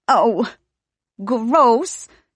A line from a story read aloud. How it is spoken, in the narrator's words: Veneza cries